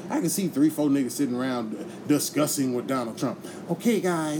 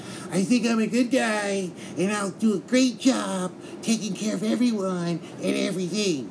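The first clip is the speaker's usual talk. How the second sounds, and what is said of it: Weaselly imitation of another person's voice. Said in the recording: “I don't have a proper Donald Trump impersonation, but he sounds like a weasel, so I'll make him sound like a weasel”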